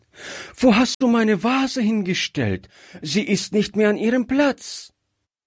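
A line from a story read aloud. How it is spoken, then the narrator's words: Frightened child calling out. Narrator (German): rief das Kind erschrocken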